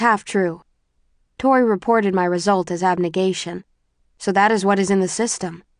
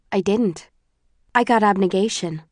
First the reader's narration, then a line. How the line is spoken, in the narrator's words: say evenly